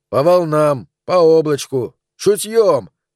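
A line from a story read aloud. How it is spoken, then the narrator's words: Shouted. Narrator (Russian): крикнул ему Бен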